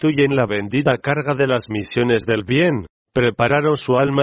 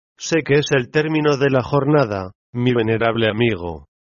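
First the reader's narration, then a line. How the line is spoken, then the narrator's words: Moved, touching tone. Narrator (Spanish): dijo la médium, en tono conmovedor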